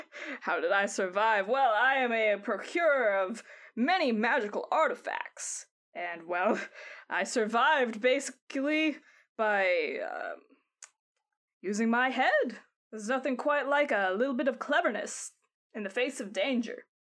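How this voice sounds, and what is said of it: Shaky put-on character accent. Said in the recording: “Gotta get this accent right. It's so hard. I'm not doing it well.”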